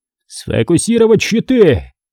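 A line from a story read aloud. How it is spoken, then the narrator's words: Roared. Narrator (Russian): взревел адмирал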